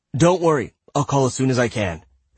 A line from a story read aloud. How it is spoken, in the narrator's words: Rishi said quickly